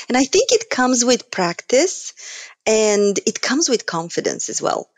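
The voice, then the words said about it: Eastern European accent. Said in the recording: “being Eastern European and having an accent”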